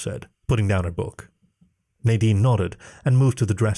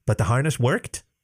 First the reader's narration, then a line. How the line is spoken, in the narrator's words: Jenny asked